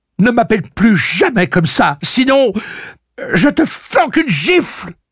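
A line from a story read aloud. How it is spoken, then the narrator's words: Exclaiming together. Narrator (French): s'écrièrent Suzanne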